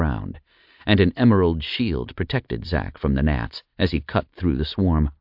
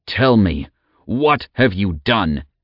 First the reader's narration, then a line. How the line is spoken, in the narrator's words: he roared